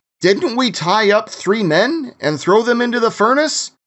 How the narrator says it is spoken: Nebuchadnezzar jumped up in amazement and exclaimed to his advisors

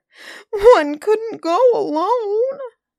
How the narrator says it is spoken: sobbed Camilla

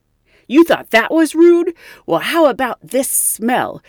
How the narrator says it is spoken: the man reportedly exclaimed

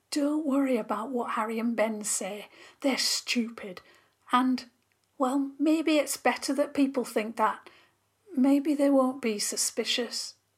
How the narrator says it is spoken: Molly whispered hurriedly

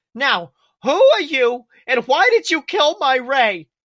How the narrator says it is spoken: She shouted

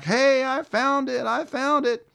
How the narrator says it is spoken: I'm screaming back

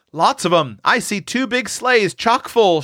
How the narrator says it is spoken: shouted Seth

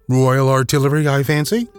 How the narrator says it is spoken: said Sherlock

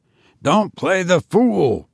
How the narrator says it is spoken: said Barnes roughly

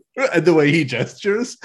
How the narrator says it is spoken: I laughed so loud

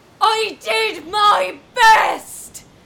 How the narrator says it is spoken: She screeched to the night sky, imagining her piercing voice

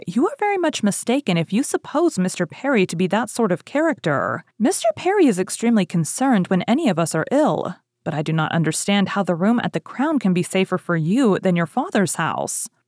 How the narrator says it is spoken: Woodhouse rather warmly

